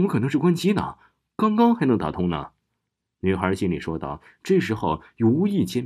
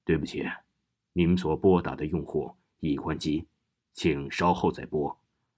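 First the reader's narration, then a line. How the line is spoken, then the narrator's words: Cold mechanical voice. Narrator (Chinese): 传来了一个冰冷冷的声音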